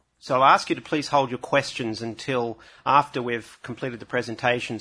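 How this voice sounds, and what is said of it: Australian accent. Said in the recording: “if you're having trouble understanding my accent, you better be ready, because there are 50% of the presenters are Australian”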